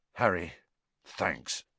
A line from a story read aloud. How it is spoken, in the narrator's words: George muttered